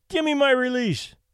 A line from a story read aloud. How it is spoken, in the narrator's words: cried Benny